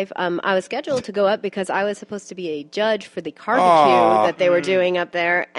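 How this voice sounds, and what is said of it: Very nasal, sick-sounding voice. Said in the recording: “I got the flu last week. I don't know if you can hear it in my voice. I'm extra super nasally.”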